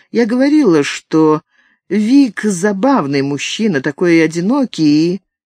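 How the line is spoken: Sighing, meek remark. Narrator (Russian): Катарин вздохнула и смиренно заметила

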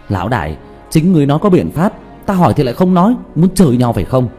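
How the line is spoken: Angry near-shout. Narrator (Vietnamese): Diệp Thiếu Dương thiếu chút nữa thì tức khí la lên

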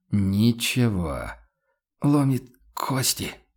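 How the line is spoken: Pained hoarse objection. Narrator (Russian): с болезненным хрипом возразил Хагнер

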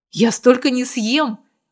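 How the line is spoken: Exclaimed. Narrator (Russian): воскликнула она

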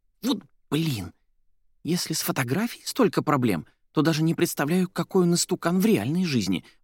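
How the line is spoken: Indignant whisper. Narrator (Russian): возмущенно шептала Соня

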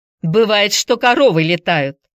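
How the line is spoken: Said angrily. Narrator (Russian): сердито сказала мисс Корнелли

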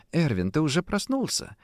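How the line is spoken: Quiet, slightly frightened. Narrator (Russian): Тихо и даже с некоторым испугом, словно боясь спугнуть увиденное, произнесла

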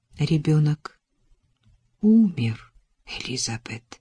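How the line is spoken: Soft female voice. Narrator (Russian): мягко произнесла она

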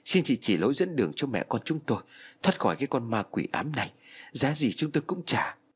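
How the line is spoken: Pleading mother. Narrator (Vietnamese): Mẹ tôi chắp tay van xin

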